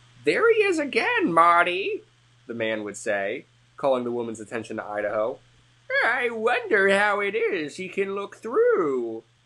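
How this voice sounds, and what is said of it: Old man character voice. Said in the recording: “That's like my old man voice.”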